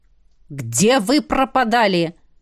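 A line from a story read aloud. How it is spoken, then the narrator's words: Stern question. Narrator (Russian): строго спросил распорядитель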